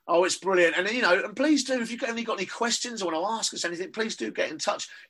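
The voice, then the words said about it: Cockney English accent. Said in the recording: “my Cockney accent”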